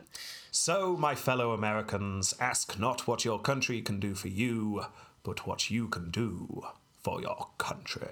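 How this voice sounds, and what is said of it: Imitates another person's voice, Churchill-like. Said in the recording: “I believe he said it in that accent as well... I think he went all Churchill-y in there... He added a bit of a pra-fra-fra at the end.”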